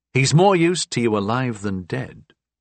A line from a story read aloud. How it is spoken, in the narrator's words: I said